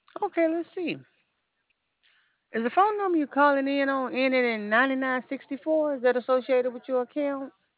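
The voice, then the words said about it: Southern American drawl. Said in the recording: “I thought I recognized that southern drawl.”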